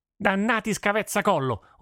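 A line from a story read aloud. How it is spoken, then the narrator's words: Furious yell. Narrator (Italian): urlò il fruttivendolo fuori di sé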